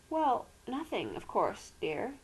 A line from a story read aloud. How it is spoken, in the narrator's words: faltered